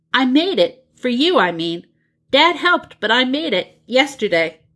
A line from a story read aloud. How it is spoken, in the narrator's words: John blurts out